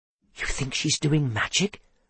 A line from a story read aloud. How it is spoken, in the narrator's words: Seth whispered